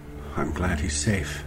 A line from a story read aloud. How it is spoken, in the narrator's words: he muttered